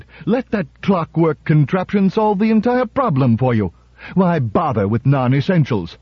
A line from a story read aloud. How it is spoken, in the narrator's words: Bogart shouted